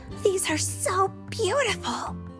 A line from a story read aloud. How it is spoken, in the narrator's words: exclaimed